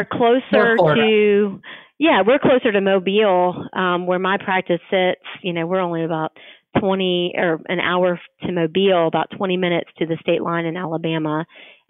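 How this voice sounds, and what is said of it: Strong Southern American accent. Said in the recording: “that strong Southern accent”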